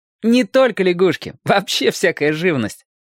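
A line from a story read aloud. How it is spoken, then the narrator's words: Laughing. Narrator (Russian): засмеялся Сережка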